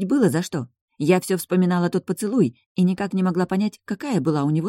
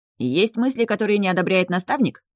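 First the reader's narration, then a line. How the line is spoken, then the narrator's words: Wry snort. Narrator (Russian): хмыкнул он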